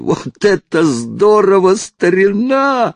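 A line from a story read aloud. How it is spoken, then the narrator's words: Bellowing. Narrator (Russian): заорал он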